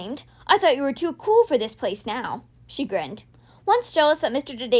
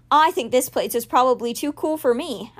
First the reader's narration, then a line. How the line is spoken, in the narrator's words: Alex said with a laugh